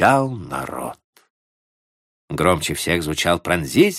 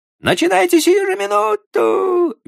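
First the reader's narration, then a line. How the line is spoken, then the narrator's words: Shrieking. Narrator (Russian): визжал студент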